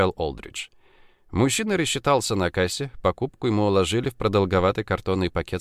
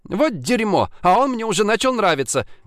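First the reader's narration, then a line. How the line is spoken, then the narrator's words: Exclaimed. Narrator (Russian): воскликнула Ширли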